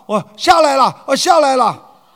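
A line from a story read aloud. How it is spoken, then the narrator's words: Quick reply. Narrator (Chinese): 高升马上答道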